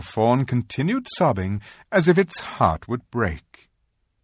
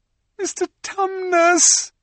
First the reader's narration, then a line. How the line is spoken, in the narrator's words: bawled Lucy in his ear